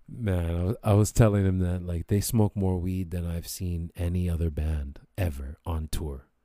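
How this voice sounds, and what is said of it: Hoarse, worn-out voice. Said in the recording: “My voice is kind of gone from talking”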